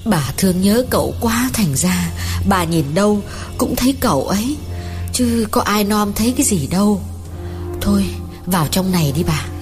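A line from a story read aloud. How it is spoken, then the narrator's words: Gentle old woman's voice. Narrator (Vietnamese): Bà hàng xóm dịu dàng bảo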